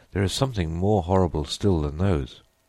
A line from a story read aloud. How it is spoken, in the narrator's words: he added, shaking his head gloomily